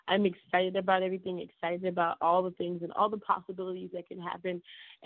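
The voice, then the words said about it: Strained, impaired voice. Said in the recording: “my voice is still challenged”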